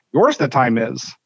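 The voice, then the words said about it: Bad Yoda impression. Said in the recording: “my bad Yoda impression for Andy Reid”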